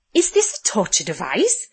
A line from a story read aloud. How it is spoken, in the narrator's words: Lorelai asked eagerly